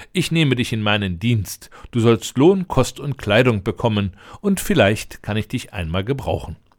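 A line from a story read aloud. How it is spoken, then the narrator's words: Laughing. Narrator (German): lachte der Prinz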